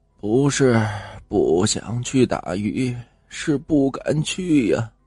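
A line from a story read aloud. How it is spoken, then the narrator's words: Sighing elder. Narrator (Chinese): 长者叹息着说道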